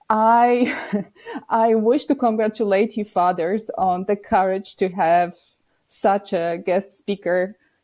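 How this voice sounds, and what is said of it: Heavy Polish accent. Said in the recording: “probably you hear a heavy Polish accent”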